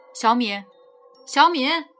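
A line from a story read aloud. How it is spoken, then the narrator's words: Repeated calling. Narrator (Chinese): 我叫了好几声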